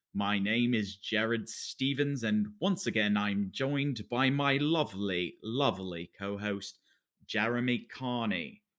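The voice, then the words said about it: Put-on British accent. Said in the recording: “I'm talking in a British accent because I thought that's what we decided we were going to do”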